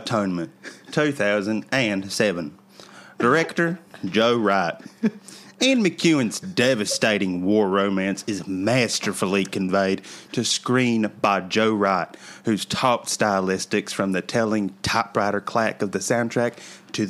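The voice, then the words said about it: Put-on American accent. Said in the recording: “in an American accent. ... In my very best American accent.”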